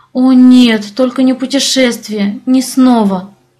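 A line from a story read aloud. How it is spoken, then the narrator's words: Groan. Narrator (Russian): застонала я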